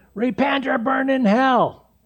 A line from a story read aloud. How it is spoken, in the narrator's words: yell and scream